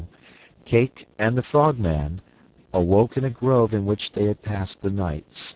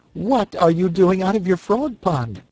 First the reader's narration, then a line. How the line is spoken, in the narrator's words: she exclaimed on seeing the Frogman